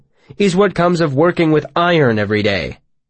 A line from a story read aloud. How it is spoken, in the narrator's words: he said firmly to the room in general